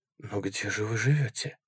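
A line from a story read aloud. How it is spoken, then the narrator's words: Disbelieving whisper. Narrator (Russian): прошептал я, все еще не веря тому, что он говорит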